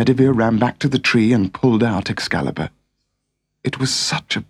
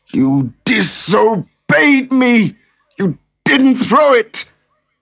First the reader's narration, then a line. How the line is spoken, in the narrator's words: In spite of his wounds, the king shouted